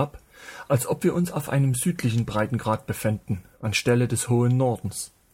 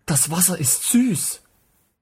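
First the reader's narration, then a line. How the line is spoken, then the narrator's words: Gasping. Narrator (German): keuchte hervor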